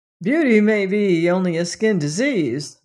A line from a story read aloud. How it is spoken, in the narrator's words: Bob laughed